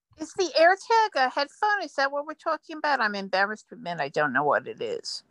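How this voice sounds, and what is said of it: New York accent. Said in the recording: “Recognizing that New York accent.”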